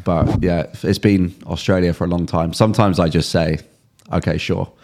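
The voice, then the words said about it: English accent often mistaken for Australian. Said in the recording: “originally from England, not Australia, as 90% of the people tell me ... What's the confusion there with the accent? ... It's the accent, and I don't think people can distinguish the difference.”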